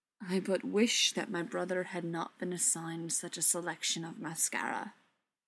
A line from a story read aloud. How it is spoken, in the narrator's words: said, as gravely as he said things like